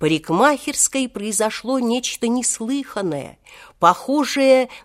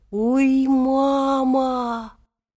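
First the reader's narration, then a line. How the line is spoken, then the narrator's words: Sudden weak moan. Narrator (Russian): внезапно ослабевшим голосом простонал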